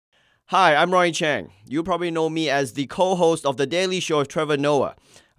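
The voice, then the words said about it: Australian accent. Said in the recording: “this accent is Australian”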